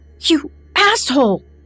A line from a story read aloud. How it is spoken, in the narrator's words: she screamed